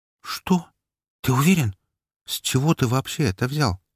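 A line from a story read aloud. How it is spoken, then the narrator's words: Quiet question. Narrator (Russian): Так же тихо спросила она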